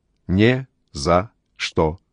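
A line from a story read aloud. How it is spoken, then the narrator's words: Silly robotic voice. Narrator (Russian): ответил Джейкоб дурашливым роботским голосом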